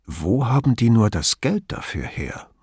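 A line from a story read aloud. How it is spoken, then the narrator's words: Murmured. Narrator (German): murmelte Brunetti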